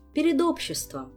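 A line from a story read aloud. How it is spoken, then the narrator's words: Gentle correction. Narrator (Russian): мягко поправила его Тереза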